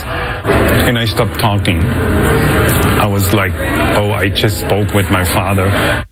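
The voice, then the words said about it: German accent in English. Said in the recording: “Where's your accent from? I said, from Germany.”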